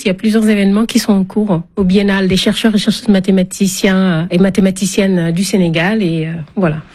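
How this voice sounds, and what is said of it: African-accented French. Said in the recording (French): “ça fait du bien d'entendre cet accent... ces accents variés pour parler le français”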